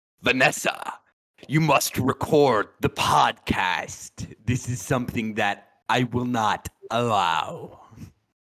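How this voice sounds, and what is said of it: Impression of a fictional villain's voice. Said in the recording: “my Wilson Fisk impression ... That's a bad Wilson Fisk impression ... I thought it was pretty good, dude. You sounded like you resembled a bald man there ... you were pretty good, guy”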